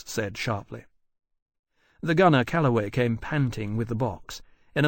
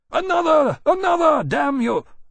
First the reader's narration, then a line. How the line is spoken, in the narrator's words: Lawrence shouted to Calloway